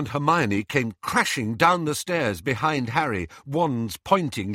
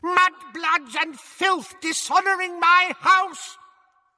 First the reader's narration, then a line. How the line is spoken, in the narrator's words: his yell